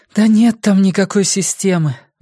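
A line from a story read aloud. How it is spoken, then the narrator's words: Sigh. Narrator (Russian): вздохнула Сага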